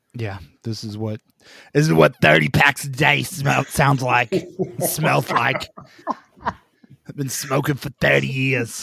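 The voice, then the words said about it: Raspy smoker's voice. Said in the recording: “Why do you sound like an old lady from New York? ... That's my smoker voice.”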